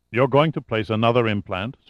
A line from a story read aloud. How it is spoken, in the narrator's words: Suvorov asked